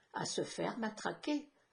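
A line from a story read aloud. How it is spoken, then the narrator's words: Cold reply. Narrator (French): a répondu froidement Yann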